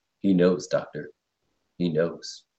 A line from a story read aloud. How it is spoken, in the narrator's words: Spock calmly says